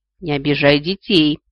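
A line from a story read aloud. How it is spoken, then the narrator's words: Growled. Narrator (Russian): рыкнул голос с другой стороны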